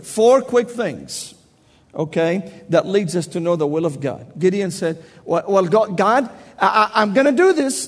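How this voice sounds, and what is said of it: Southern Tennessee accent. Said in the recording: “I must speak with my southern Tennessee accent”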